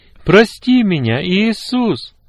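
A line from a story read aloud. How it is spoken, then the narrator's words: Loud prayer. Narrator (Russian): громко молился Коля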